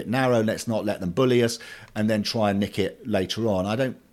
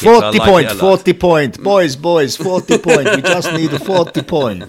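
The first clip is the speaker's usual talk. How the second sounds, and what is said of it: Italian accent impression of Claudio Ranieri. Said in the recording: “Do that with an Italian accent. You're Claudio Ranieri ... It's like Claudio's in the room.”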